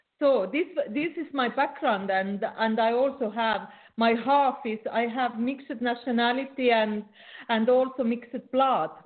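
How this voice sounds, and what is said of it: Non-native accented English. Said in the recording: “the interesting accent ... for someone who speaks English as what your fourth language”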